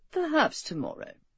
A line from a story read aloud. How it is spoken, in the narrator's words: Dudley agreed faintly